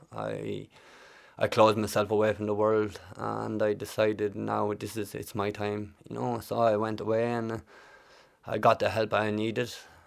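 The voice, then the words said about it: Irish accent. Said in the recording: “I'm trying to place the accent ... from Kildare”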